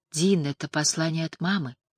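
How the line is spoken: Soft. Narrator (Russian): мягко сказала

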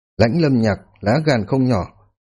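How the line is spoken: Cold. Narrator (Vietnamese): Hàm Thương Yên lạnh lùng nói

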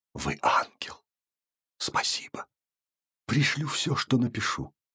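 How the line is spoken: Hasty whisper. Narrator (Russian): успел шепнуть

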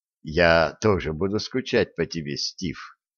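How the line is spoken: Soft remark. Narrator (Russian): мягко заметил Джордж Миллар

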